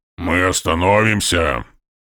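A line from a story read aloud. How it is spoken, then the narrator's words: Grumbling orc. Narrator (Russian): проворчал орк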